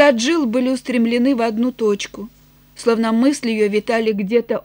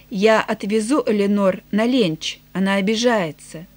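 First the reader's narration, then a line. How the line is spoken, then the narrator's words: Quiet speech. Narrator (Russian): Тони тихо сказал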